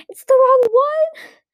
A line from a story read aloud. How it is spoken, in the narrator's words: Sophie screamed